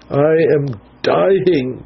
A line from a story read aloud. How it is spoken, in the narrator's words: moaned the wretch